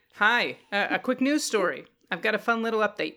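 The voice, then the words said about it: Put-on New York accent. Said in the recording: “the wild New York guy ... Think I can keep the accent?”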